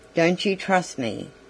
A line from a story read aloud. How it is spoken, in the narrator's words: he asked